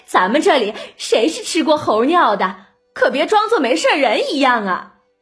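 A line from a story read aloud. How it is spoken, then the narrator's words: Knowing laugh, women. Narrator (Chinese): 尤氏、娄氏都会意的笑着和李纨说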